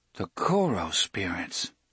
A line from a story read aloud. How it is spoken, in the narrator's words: Eddie murmured, mostly to himself